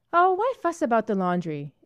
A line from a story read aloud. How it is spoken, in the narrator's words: exclaimed Gloria petulantly